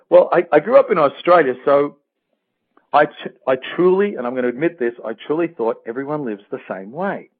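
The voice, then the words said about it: Australian accent. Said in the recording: “I grew up in Australia, which I guess is obvious from my accent. ... yes, I love that sound.”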